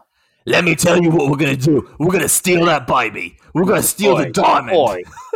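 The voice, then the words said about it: Cockney tough-guy voice. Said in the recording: “your American Batman was Cockney ... that's my Jason Statham. That's my like muscle in a heist.”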